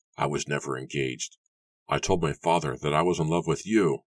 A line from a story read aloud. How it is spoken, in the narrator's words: Edward told her bitterly